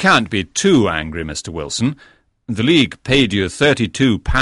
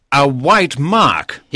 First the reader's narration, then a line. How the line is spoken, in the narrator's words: cried